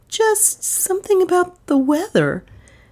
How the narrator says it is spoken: said Dale weakly

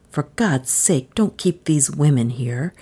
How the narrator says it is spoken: he pleaded in a low, tense voice

